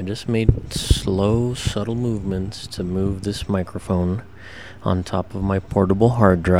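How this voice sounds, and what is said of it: Usual voice. Nothing is said of it.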